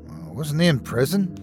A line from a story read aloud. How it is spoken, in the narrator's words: whispered